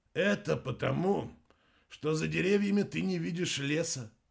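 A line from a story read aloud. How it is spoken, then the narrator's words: Sigh. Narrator (Russian): вздохнул Чуд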